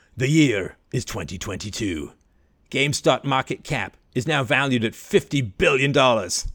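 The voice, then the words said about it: Announcer voice. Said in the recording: “announcer voice.”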